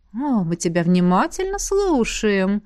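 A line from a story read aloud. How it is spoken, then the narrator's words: Purring female voice. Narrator (Russian): мурлыкнула Элисандра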